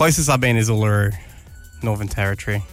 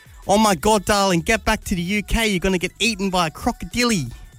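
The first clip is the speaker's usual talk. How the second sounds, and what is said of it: Attempted English accent. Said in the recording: “Are you trying to do an English accent? ... I'm trying to.”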